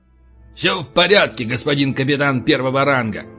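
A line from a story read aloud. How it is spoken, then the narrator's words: Barked, playful. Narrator (Russian): Дурачась, рявкнул полубой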